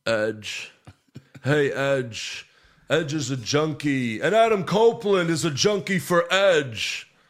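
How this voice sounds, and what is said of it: Imitates another person's voice. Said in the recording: “my Randy Orton impression”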